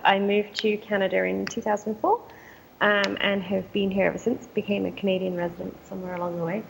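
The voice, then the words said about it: English accent. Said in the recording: “as you can probably hear from my accent, I am English by birth”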